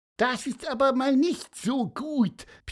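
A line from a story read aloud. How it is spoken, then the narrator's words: Squeaked. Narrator (German): piepste Pieper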